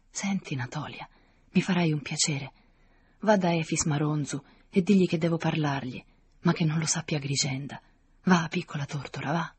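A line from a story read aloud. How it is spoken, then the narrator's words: Old woman, low voice. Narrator (Italian): la vecchia dicendole sottovoce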